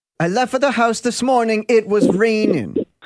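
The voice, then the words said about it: Unconvincing put-on Filipino accent. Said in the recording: “In your best Filipino accent ... What the hell was that? ... He asked for a Filipino accent. That is what I gave him. ... That is not Filipino.”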